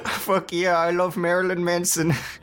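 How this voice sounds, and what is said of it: Bad put-on Indian accent. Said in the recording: “Why did you give me an Indian accent? ... that was the worst Jordan impression I've ever heard ... Why did it have an accent? ... I was just like puckering my lips”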